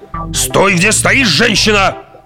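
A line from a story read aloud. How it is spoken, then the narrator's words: Barked order. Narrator (Russian): рявкнул на нее Лэберинт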